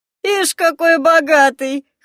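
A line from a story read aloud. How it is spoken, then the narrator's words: Chuckling. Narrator (Russian): хохотнул рыжий усый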